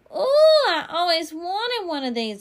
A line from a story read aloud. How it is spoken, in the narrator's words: I hollered, real thrilled